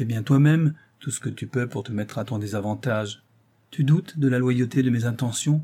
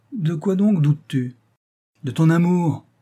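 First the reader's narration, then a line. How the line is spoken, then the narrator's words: Comically vehement exclamation. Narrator (French): s'écria la Gossin avec une véhémence qui la rendait tout à fait drôle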